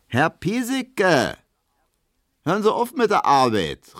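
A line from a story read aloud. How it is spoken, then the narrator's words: Calling out. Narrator (German): rief Hedwig ihm zu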